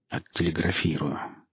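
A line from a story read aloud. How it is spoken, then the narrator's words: Glum mutter. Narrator (Russian): буркнул вовсе не похожий на везунчика Шварц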